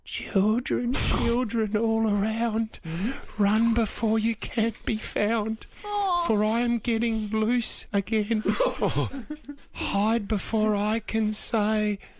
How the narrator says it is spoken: they heard Felicity saying, her voice was trembling

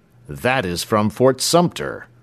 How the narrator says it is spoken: cried Crockston

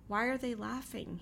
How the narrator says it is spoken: he asks

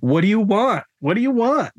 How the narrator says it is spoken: Bianca screamed at them

